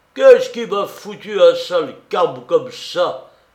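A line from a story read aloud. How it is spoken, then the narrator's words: Exclaimed. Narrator (French): s'écria le Breton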